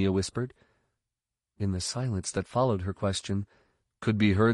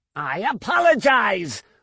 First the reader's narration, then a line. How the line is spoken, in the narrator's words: Lumia snarled